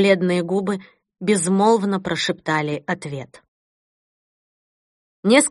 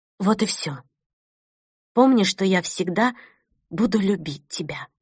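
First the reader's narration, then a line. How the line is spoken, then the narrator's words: Quiet. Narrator (Russian): Кристина тихо добавила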